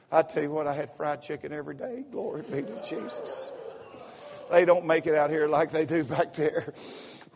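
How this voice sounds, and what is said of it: Southern American accent. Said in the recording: “I'm kind of talking Southern. I usually don't.”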